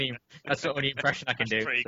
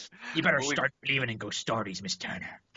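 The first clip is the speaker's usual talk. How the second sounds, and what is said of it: Imitates a pirate film character. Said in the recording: “my Captain Barbossa impression ... That's pretty good, actually.”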